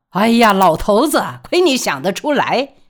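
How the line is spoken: Laughing loudly. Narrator (Chinese): 大笑说

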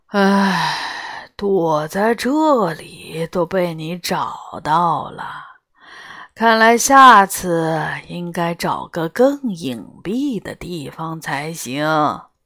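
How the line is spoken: Lazy sigh. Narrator (Chinese): 龙懒懒地叹了口气

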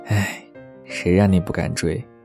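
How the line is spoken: Regretful sigh. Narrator (Chinese): 室友惋惜地叹气

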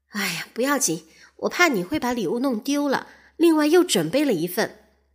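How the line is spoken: Sighing wife. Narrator (Chinese): 他太太叹口气说

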